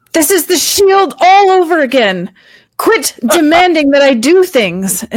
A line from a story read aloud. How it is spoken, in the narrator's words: She's going to yell back at Orin